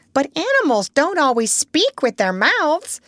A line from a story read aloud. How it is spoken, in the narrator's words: said the parrot in a high voice